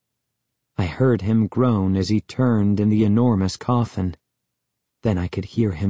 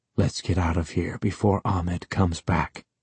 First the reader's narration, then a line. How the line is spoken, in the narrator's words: he whispered